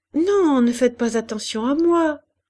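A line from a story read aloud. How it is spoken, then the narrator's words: Cheerful reply. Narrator (French): répondait Hélène gaiement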